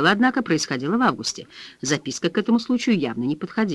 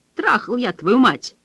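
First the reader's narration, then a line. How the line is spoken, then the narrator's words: Barked, male voice. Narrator (Russian): рявкнул мужчина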